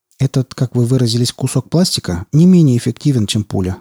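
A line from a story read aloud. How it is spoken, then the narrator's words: Calm retort. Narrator (Russian): спокойно парировал Малдер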